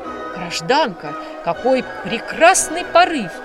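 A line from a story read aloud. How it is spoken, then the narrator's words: Exclaimed. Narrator (Russian): воскликнул Далдон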